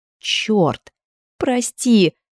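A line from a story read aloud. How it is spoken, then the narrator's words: Forced out, strained. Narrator (Russian): выдавила Элли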